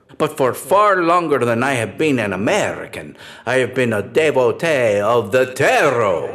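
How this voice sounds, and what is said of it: Foreign accent. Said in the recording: “from my accent, it is no secret that I am an immigrant to this great country”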